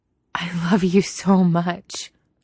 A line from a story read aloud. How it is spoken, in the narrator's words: Nomi gasps, helpless to keep the feeling inside